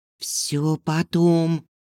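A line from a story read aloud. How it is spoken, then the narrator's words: Tense whisper. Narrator (Russian): напряженно прошептала Лерка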